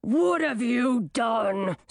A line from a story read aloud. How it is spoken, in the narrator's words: snarled the werewolf